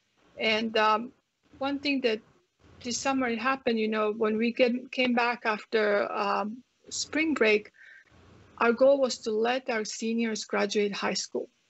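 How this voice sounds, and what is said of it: Croatian accent. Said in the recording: “you guys can tell from my accent, I come from um, Croatia, from Yugoslavia”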